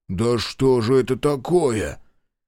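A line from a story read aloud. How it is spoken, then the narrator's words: Wheezing under table. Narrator (Russian): Лукин под столом хрипел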